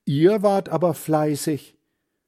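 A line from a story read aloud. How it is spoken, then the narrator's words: Calling out. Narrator (German): ruft sie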